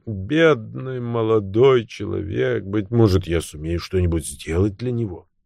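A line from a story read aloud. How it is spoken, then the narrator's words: Rich low murmur. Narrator (Russian): леди Кут, пробормотав сочным и низким голосом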